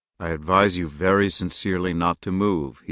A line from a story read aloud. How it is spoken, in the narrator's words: he said in a low voice